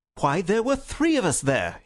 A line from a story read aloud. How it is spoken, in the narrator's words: he cried